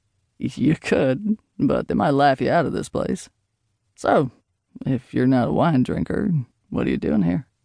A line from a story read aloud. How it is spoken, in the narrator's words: She let out a deep sigh